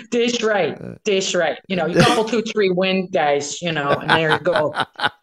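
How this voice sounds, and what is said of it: Put-on Chicago accent. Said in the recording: “doing a Chicago accent”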